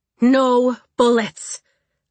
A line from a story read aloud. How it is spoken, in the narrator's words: Pisces said loudly enough for all to hear